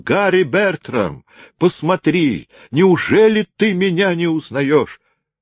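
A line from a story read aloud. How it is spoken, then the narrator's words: Loud tearful trembling shout. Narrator (Russian): весь дрожа, со слезами на глазах громко закричал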